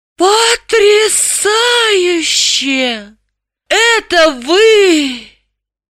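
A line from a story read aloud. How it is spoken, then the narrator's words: Envious exclamation. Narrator (Russian): Граблин воскликнул с нескрываемой завистью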